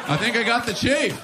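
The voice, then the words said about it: New York accent. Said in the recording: “he actually had a New York accent”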